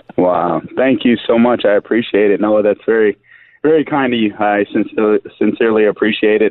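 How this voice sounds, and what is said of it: Hoarse, strained voice. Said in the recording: “I'm fighting laryngitis here”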